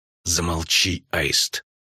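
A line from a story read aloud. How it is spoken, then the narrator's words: Furious hiss. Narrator (Russian): яростно прошипела королева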